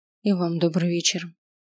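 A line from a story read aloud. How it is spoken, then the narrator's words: Quiet reply. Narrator (Russian): ответила я тихо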